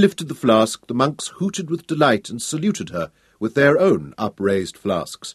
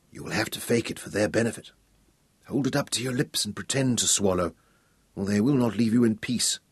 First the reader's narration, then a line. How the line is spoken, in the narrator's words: Nicholas leaned close to her and whispered